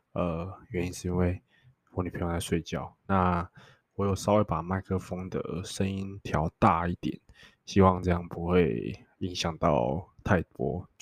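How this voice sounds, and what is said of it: Quiet, hushed speaking. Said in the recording (Chinese): “为什么我会讲话那么小声？”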